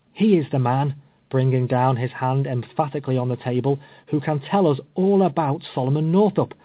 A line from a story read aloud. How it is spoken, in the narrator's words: exclaimed Waddill